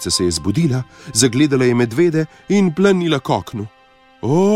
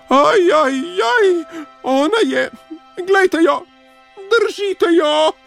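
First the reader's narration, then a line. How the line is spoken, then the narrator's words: Squealing. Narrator (Slovenian): je cvilil Miško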